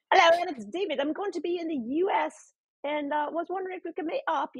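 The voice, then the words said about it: Attempted Australian accent, sounds British. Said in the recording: “this boy with an Australian accent ... I don't even know if that's an Australian accent, but I'm really trying my best ... I think that's actually British”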